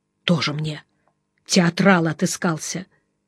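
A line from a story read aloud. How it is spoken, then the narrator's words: Quiet scoffing snort. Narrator (Russian): фыркнул негромко Жеглов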